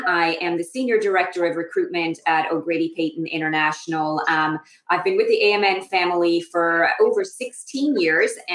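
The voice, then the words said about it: Irish accent. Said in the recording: “you can probably tell from my accent, I am originally from Ireland.”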